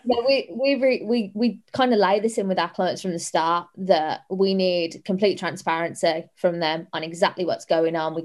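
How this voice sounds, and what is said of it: Birmingham (Brummie) English accent. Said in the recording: “the Brummie accent coming in”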